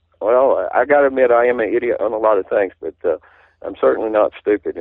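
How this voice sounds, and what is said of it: Southern US accent. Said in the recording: “somebody speaking as I do with a southern accent.”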